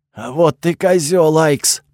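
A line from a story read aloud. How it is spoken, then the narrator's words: Angry hoarse rasp. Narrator (Russian): прохрипел он со злостью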